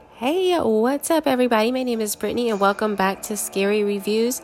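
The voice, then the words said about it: Very congested voice. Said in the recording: “I sound super congested”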